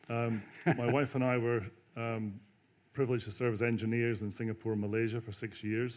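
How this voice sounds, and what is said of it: Lilting Scottish accent. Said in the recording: “lilt of my Scottish accent.”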